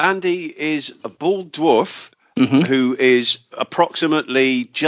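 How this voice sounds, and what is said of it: Usual voice. Nothing is said of it.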